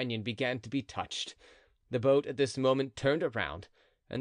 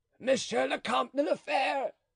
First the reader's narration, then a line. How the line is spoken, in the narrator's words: he cried